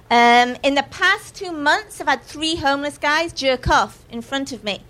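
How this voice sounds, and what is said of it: English accent. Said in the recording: “Yes, I've got an English accent.”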